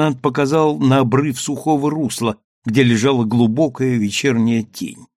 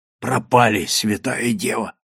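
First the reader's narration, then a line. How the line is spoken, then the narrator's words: Whispered. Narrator (Russian): прошептал калабрийский матрос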